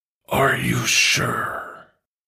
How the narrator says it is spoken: Venom asked again, lower this time, rumbling through Eddie's chest

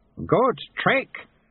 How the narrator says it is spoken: Lutze shouted to Susan's ear above the thunder

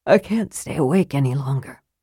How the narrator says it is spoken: he said softly

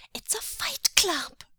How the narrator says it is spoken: he squeaked

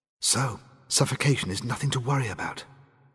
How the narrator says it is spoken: she whispered sarcastically

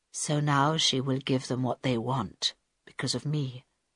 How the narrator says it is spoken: said Carl quietly

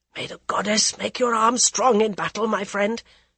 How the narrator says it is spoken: he whispered

